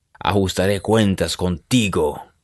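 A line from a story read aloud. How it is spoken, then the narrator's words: Growling. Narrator (Spanish): gruñó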